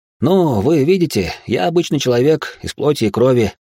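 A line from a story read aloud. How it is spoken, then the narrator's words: Laughing, smiling. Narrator (Russian): рассмеялся я, не переставая улыбаться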